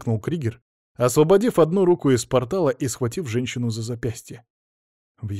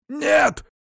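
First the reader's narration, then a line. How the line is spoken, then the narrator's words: Shouting. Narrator (Russian): закричал Зарим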